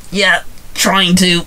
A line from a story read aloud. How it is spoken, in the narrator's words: Alex barked back